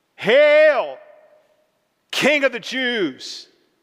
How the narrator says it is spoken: a battalion of soldiers calling out, whistling, mocking, yelling

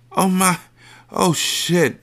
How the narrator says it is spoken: she moaned

